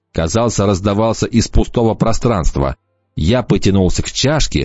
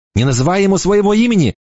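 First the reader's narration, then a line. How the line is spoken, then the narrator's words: Exclaiming girl. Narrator (Russian): воскликнула девушка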